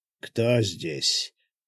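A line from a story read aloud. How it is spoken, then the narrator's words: Hoarse rasp. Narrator (Russian): прохрипел он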